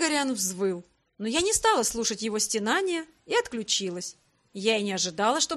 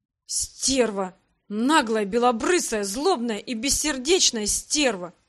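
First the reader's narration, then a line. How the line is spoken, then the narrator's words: Groaning. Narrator (Russian): простонал Грег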